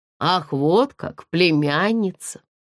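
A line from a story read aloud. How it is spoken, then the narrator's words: Mocking. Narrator (Russian): насмешливо повторил тот тип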